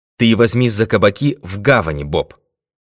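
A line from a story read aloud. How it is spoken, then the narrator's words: Plain. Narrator (Russian): сказал ему Пинкертон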